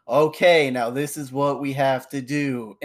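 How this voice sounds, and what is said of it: Flat monotone imitated voice. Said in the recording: “in the monotone voice”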